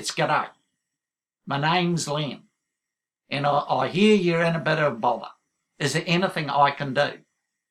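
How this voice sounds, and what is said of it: Put-on Australian accent. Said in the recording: “So I've been practicing my Aussie accent.”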